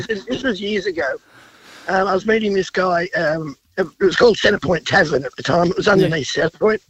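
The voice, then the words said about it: Congested voice from a cold. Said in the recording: “sorry about the voice. I've got a cold.”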